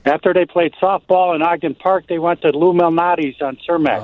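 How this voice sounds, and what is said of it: Beautiful Chicago accent. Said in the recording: “Oh, that's so beautiful. That's a beautiful accent. ... That's like that's so good.”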